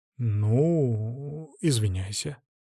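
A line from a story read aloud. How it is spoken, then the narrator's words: Drawling. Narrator (Russian): протянул я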